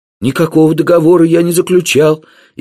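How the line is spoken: Frightened. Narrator (Russian): испуганно сказал он

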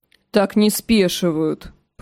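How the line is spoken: Drunken grumble. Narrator (Russian): проворчал какой-то пьяный лучник

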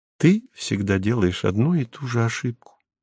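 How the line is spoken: Gentle interruption, woman. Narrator (Russian): мягко прервала ее беременная женщина

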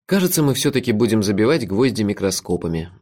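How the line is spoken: Sighing. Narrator (Russian): вздохнул я

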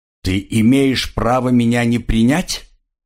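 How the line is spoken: Plain question. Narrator (Russian): спросил он наконец

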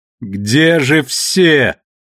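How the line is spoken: Shouting over wind. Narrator (Russian): выкрикнула она сквозь вой ветра

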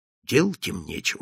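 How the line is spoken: Whispering. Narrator (Russian): шептал он

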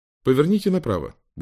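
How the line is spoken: Cheerful. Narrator (Russian): бодро произнес Уинстон

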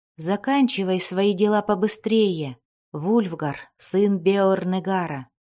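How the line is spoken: Plain. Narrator (Russian): сказала она

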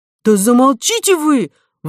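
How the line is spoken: Exclaiming. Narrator (Russian): воскликнула Кора

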